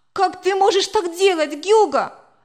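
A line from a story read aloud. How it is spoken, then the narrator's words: Exclamation. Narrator (Russian): воскликнула я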